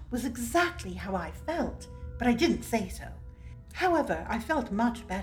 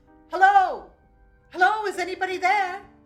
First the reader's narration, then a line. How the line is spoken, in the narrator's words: young Reggie's voice shouting